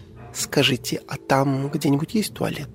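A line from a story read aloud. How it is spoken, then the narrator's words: Innocent little voice. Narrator (Russian): невинным голоском уточнила охотница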